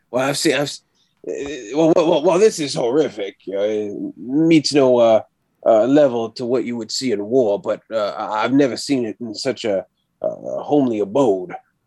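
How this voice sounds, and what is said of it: Slipping into a wrong put-on accent. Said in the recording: “This is also me falling back into a very wrong accent.”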